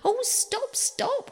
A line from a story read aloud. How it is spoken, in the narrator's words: cried the mole in ecstasies